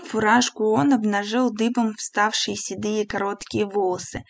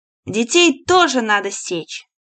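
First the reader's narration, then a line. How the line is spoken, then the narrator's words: Stern. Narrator (Russian): губернатор строго сказал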